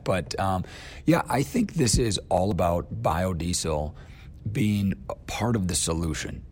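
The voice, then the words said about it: Partly lost, strained voice. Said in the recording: “my voice is a little different today. I lost it at a youth sporting event over the weekend”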